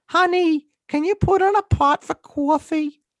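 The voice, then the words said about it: Exaggerated Long Island accent, part Boston. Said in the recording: “Your Long Island accent, your exaggerated Long Island accent sounds part Boston.”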